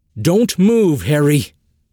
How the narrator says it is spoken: he shouted through the wind and rain

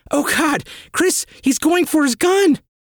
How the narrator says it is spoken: Leslie cried out

